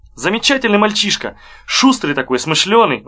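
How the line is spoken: Warm, homely exclamation. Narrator (Russian): воскликнул Егоров уже совсем по-домашнему

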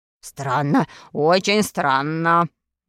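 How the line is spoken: Muttering. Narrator (Russian): бормотал доктор Бариль

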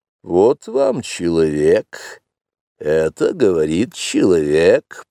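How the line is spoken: Grumbling under breath. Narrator (Russian): проворчала Багира себе в усы

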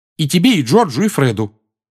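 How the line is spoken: Angry. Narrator (Russian): сердито уточнила она

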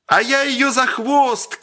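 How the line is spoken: Distant shout. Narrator (Russian): крикнул издали Сергей

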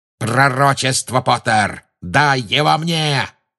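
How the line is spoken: Roar near ear. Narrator (Russian): проревел у него над ухом голос Люциуса Малфоя

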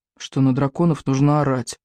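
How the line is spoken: Gloomy reply. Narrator (Russian): мрачно ответил Икинг

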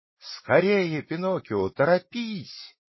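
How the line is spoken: Shouting, young goat. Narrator (Russian): кричала ему хорошенькая козочка

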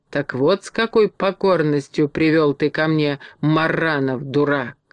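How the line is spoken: Angry hiss. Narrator (Russian): злобно прошипела

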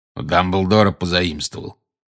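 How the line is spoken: Growl. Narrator (Russian): прорычал Грюм

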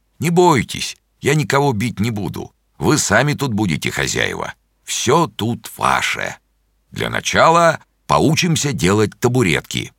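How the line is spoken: Laughing. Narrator (Russian): засмеялся и сказал

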